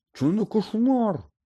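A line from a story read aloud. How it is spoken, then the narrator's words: Shrieking. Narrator (Ukrainian): Заверещав Рон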